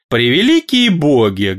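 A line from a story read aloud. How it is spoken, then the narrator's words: Loud showy yawn. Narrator (Russian): громко напоказ зевнула Сежес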